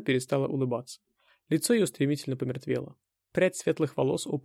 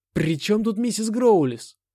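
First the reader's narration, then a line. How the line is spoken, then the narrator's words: Angry shout. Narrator (Russian): зло крикнул я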